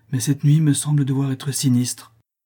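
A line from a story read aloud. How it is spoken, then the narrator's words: Troubled voice. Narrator (French): dit-il d'une voix troublée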